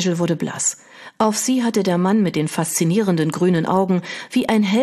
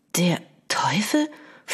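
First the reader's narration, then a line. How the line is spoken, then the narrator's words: Whispered. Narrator (German): flüsterte sie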